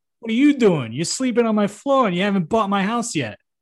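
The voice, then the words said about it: Put-on New Jersey accent. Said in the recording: “he has a Jersey accent ... you sound different than usual”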